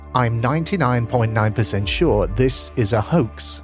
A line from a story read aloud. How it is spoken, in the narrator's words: John said